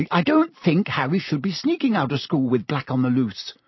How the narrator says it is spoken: said Hermione sharply

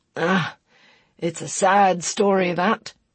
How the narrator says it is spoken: he sighed

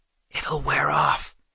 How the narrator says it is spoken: Seth whispered back

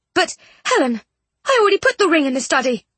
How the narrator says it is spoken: Jane exclaimed

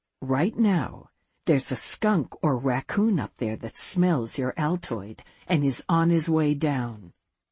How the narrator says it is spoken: whispered

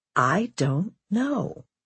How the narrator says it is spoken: she said slowly

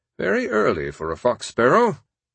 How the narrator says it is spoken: he will murmur

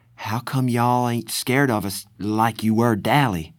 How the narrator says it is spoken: Cherry sighed

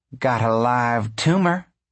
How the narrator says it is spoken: she said, and she cackled like a happy hen

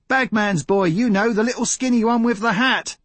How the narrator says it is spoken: yells of

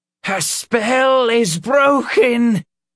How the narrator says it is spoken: the Reverend shouted triumphantly

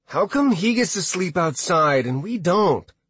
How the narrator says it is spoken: He whined

